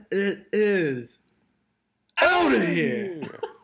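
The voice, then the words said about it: Imitates another person's voice. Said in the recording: “that was my best Kuiper impression.”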